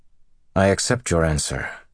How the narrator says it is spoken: said stiffly

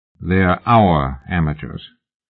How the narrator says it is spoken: Oliphant said dryly

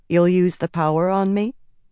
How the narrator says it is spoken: Egwene asked calmly

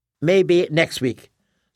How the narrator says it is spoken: said Jesse

